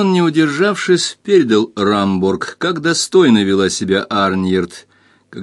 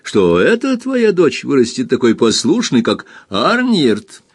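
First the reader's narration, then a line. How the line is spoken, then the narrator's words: Laughing. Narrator (Russian): смеясь добавил он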